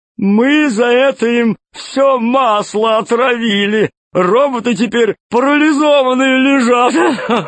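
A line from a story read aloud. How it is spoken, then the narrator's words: Shaking laughter. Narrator (Russian): Засмеялся Толстяк так, что все его подбородки затряслись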